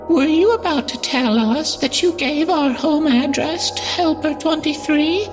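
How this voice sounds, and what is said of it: Unnatural high falsetto voice. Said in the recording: “Her voice was an unnatural falsetto.”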